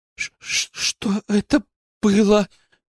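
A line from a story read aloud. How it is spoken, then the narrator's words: Trembling question. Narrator (Russian): дрожащим голосом спросила Алена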